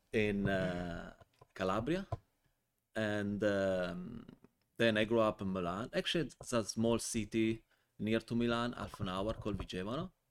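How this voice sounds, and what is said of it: Italian accent. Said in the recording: “as probably many of you already uh, figured i'm from my accent i'm not from usa ... originally from italy”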